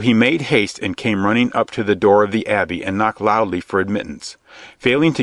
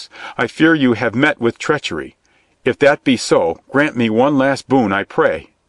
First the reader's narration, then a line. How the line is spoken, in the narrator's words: cried Little John in great distress